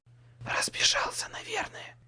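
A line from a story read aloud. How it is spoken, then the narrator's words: Quiet reply. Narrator (Russian): отвечал я так же тихо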